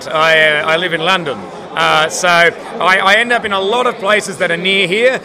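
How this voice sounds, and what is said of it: Speaker's own non-British accent. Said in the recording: “despite my my accent,”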